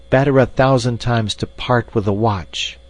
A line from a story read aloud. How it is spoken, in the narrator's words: cried Hans aloud